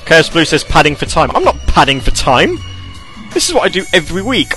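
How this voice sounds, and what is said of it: British accent. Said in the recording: “my proper British accent”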